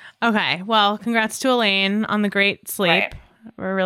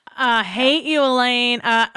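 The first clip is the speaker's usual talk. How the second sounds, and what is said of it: Put-on drawl. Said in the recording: “See, my drawl just came.”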